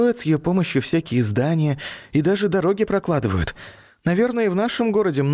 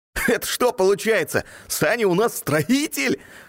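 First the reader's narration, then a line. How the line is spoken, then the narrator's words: Short laugh. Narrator (Russian): хохотнул Ник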